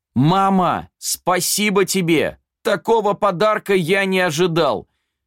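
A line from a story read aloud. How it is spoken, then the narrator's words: Shouting. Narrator (Russian): жених закричал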